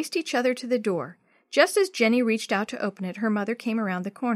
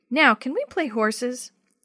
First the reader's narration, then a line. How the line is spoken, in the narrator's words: Jenny laughed